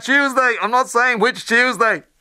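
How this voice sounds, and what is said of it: Dustin impression, Dublin accent. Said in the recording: “Dustin as the quintessential Irish come Dublin accent”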